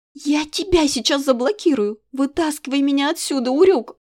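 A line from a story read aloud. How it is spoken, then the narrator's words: Near scream. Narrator (Russian): Едва не завопила я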